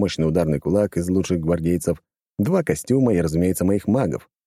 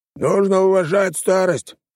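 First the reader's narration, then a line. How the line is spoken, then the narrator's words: Grumbling. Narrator (Russian): проворчал второй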